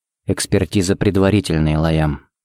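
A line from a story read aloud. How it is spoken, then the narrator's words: Quiet. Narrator (Russian): сказал он тихо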